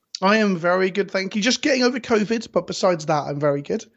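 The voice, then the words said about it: Stuffy, cold-sounding voice. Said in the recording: “you can definitely hear in my voice that I've got like some lingering cold-like symptoms”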